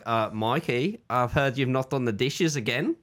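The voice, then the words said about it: Put-on Australian accent. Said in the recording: “we approach each other with an Australian accent”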